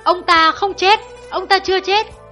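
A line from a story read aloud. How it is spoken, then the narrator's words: Sudden loud shout. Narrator (Vietnamese): Hạ Hầu Tinh bỗng hét to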